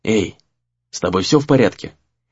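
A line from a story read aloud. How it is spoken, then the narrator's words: Quiet, unpleasantly surprised. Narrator (Russian): тихо спросил Рэй, неприятно удивленный этой картиной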